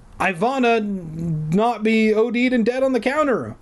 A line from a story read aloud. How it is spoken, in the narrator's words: I shouted her name